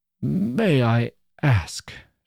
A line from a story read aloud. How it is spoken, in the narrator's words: she faltered out